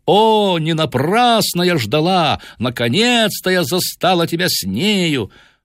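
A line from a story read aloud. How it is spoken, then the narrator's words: Shouting in French. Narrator (Russian): Она кричала по-французски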